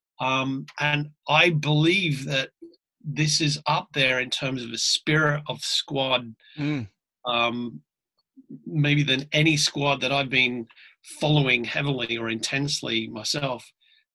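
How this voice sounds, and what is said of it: Australian accent. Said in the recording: “I'm an Aussie. Obviously, you can tell from my accent”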